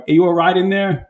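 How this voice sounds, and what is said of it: Put-on American accent. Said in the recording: “I don't know why they got an American accent”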